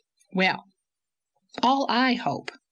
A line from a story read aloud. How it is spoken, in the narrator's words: said Miss Cornelia calmly